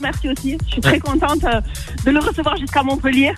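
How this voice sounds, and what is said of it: Southern French accent. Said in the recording (French): “Elle a un bel accent... Un bel accent, ouais, j'entends ça... Ça sent le sud.”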